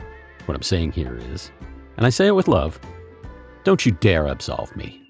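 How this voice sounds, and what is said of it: Usual voice. Nothing is said of it.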